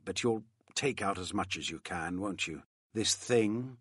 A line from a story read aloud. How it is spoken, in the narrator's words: said bitterly